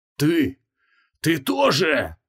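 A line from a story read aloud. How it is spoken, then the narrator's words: Muttered through clenched teeth. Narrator (Russian): процедил маг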